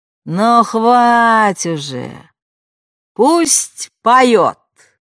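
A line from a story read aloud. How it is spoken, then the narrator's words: Loud, lazy, distant. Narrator (Russian): из задних рядов сказали громко и лениво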